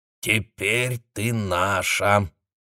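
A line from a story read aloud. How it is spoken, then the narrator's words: Creaky voice. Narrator (Russian): произнесла Ава скрипучим голосом и, прикрыв рот ладонью, стала радостно улюлюкать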